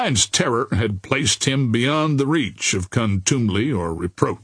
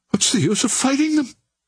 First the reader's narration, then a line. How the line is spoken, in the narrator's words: whimpered